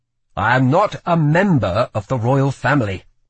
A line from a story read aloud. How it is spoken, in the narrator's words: he snapped